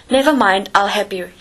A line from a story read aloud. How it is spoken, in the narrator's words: he said